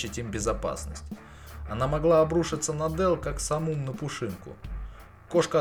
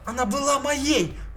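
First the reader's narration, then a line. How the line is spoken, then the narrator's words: Shouting. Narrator (Russian): кричала Дел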